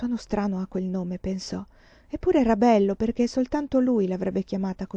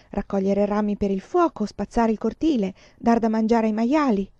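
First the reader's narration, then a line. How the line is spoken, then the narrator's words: Man exclaiming. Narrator (Italian): esclamò lui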